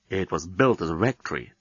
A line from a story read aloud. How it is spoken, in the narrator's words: Dan murmured to Nettie